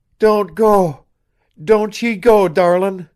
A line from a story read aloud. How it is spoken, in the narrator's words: it screamed